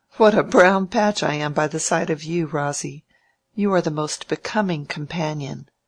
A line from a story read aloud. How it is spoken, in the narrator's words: she said laughingly